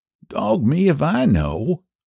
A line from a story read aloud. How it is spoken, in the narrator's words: he sighed